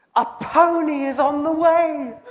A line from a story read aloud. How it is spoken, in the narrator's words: he exclaimed with delight